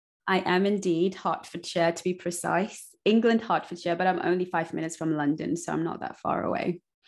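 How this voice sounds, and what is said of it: English accent. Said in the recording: “I love your accent. Are you in England?”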